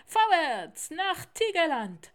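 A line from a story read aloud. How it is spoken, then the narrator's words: Called out. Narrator (German): rief Kasim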